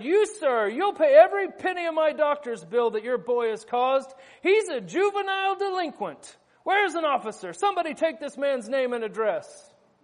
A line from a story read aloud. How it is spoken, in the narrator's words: The injured one sat up and shouted